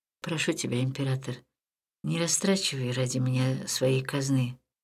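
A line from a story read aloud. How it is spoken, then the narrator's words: Quiet. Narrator (Russian): Леон тихо сказал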